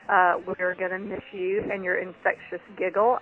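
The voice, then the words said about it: Rural hick-sounding accent. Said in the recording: “y'all can all make fun of my hick accent now”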